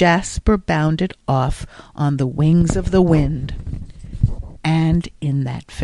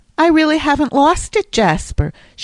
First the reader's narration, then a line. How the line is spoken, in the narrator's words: she would exclaim radiantly after finishing a concerto